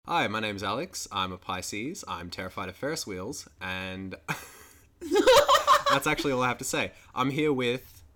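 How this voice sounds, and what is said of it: Put-on customer-service phone voice. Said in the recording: “use your phone call voice... I switched into, like, customer service mode. It's just fucking terrible.”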